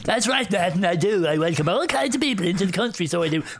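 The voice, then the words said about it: Camp character voice. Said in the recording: “Camp Gary ... I'm not doing the voice.”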